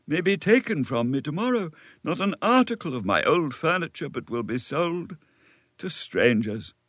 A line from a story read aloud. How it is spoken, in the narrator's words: sighed the poor gentleman